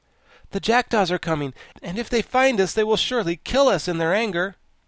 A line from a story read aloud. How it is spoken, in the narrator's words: as the sound grew nearer to them, Tip exclaimed